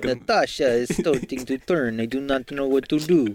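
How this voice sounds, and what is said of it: Bad put-on Russian accent. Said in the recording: “really bad Russian accents ... I can't do a bad Russian accent ... That is dead on what Singularity is offering up.”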